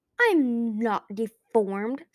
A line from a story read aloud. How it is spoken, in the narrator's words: Sunny said hotly